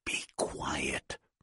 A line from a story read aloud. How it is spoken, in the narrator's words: Robert whispered